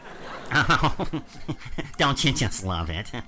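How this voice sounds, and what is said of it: Imitates another person's voice. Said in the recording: “my Paul Lynde impression sucks”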